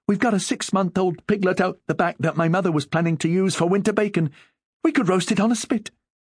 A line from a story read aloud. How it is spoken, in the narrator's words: Young Eileen, who had once had a childish crush on Barney, said excitedly